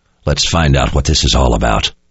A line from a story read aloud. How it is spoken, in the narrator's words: Richard said in a low growl